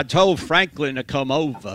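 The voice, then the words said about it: Billy Graham Southern accent impression. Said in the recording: “I could have the Billy Graham accent ... That's not bad ... If I had Billy Graham accent.”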